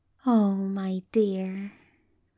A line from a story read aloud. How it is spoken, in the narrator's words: Aziraphale says tenderly